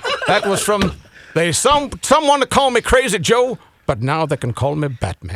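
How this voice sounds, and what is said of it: Imitates another person's voice. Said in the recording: “You're doing a great voice. It's just not Morgan Freeman.”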